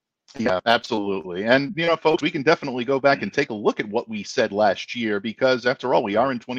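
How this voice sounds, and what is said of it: Usual voice. Nothing is said of it.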